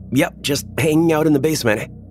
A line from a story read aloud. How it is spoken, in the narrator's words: I yell back up the stairs